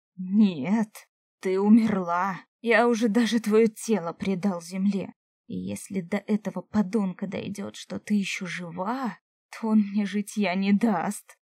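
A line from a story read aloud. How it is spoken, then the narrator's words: Growled. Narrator (Russian): Зарычал Сашка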